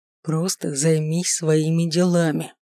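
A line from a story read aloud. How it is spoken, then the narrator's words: Near-growl through teeth. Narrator (Russian): едва не рыча процедил я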